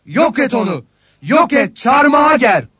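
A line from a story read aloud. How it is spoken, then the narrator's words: Crowd shouting together. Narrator (Turkish): diye bağırıştılar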